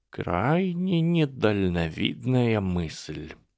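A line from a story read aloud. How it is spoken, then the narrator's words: Slow, deliberate. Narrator (Russian): медленно выговорил Дамблдор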